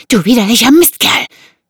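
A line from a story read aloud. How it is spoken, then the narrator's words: Hissing, female. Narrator (German): zischte sie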